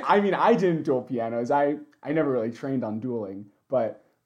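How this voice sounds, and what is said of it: Hoarse, worn-out voice. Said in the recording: “my voice is thoroughly shot”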